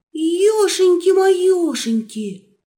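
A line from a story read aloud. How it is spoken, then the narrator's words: Horrified wolf gasp. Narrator (Russian): С ужасом выдохнул волк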